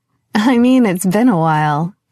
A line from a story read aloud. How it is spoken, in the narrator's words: Carmelita laughed